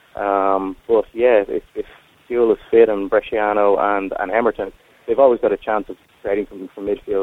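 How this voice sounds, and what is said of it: Irish accent. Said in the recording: “That seems to be a very Irish accent you have.”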